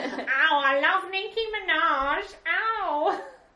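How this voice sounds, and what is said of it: Put-on accented voice. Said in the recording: “that accent's turned up on this, that voice has turned up on this episode”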